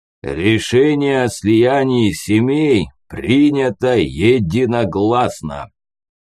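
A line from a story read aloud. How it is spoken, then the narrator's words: Deep booming bass. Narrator (Russian): пробасил он, словно сварог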